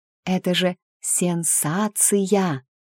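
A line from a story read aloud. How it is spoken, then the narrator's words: Drawn-out, savoring syllables. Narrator (Russian): Это слово она протянула по слогам, смакуя как деликатес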